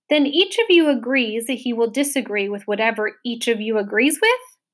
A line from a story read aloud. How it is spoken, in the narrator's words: Milo said triumphantly